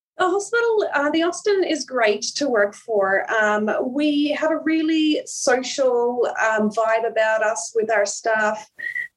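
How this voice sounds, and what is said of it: Australian accent with slight Irish twang. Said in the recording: “half-half accent ... there is a few twangs still left of the Irish accent”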